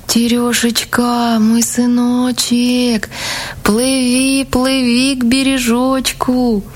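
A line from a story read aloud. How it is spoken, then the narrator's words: Thin calling voice. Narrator (Russian): стала звать сына тоненьким голоском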